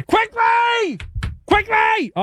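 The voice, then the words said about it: Yelling. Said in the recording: “why are you yelling at me? Don't yell at me.”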